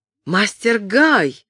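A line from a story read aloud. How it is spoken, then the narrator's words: Exclaiming. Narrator (Russian): воскликнула Кэтрин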